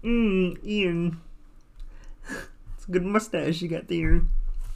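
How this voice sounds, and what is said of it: Kermit the Frog voice impression. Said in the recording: “Try Kermit the Frog. I want you to try Kermit the Frog. ... Thank you, Kermit.”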